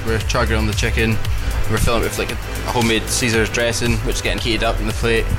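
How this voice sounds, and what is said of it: Slight Inverness Scottish accent. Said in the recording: “You've actually got a wee bit of an Invernessian accent there already.”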